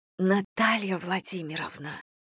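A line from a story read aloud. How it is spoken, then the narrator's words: Low whisper. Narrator (Russian): понизив голос, шептала Ирина Алексеевна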